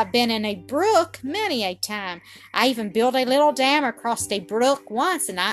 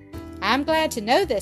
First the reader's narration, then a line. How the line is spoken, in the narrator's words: said Don